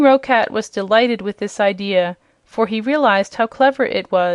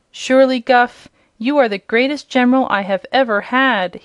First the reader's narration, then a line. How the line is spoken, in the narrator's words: exclaimed, his eyes sparkling with joy